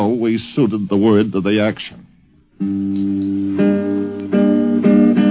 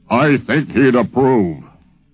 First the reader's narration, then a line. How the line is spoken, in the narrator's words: he said in that beautiful, booming voice of his